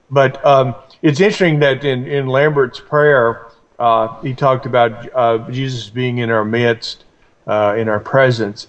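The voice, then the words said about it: Voice affected by a cold. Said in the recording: “I'm going to be clearing my throat a bit ... I've got a cold”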